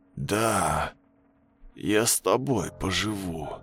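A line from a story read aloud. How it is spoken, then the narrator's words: Hoarse wheeze. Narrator (Russian): прохрипел он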